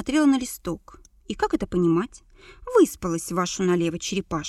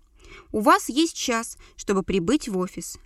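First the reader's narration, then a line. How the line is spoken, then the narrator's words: Barked. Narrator (Russian): рявкнула Зайцева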